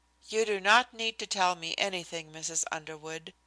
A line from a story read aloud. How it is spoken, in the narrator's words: I said gently